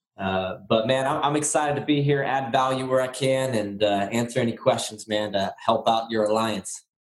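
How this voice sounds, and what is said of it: Raspy voice from a cold. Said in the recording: “I'm getting over a little cold and sound a little raspy or old”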